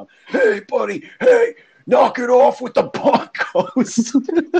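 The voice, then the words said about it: Raspy impression of another man. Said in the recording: “That's how he kind of talks. He's got the raspy voice.”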